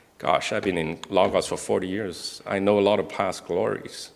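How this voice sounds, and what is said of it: Usual voice. Nothing is said of it.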